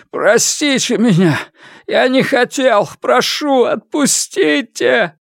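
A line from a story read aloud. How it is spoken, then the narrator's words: Loud sobbing. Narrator (Russian): Госпожа Ц громко всхлипнула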